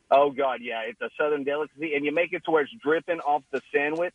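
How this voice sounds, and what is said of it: Non-Philadelphia regional accent. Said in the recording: “you can tell this accent ain't from around the Philly area”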